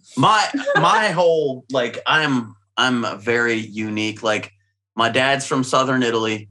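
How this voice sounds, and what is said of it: Southern twang accent. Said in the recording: “Hence the twang.”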